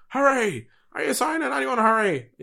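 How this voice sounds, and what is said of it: Poor imitation of another person's voice. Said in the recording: “That's a horrible Jim White accent”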